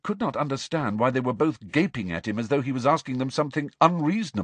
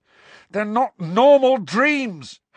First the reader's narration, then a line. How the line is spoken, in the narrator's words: Harry shouted in her face